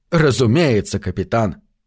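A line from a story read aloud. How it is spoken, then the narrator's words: Solemn declaration. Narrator (Russian): Ботокс торжественно произнес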